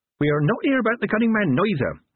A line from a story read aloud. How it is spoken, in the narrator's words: Nanny Ogg added cheerfully